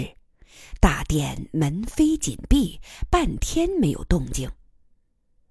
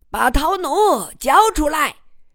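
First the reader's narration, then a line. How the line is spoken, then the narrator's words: Loud shout. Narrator (Chinese): 三郎大声喊道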